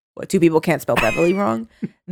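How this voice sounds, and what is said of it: Imitates another person's voice. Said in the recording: “That's my impression of the late, great Robert Durst.”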